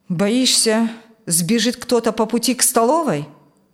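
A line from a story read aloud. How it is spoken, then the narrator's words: Grim mutter. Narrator (Russian): Мрачно буркнул тот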